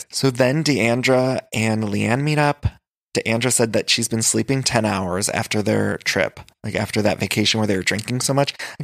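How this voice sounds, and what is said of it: Hoarse voice with vocal fry. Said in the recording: “my voice is a little hoarse today ... It's been hoarse ... a little extra vocal fry”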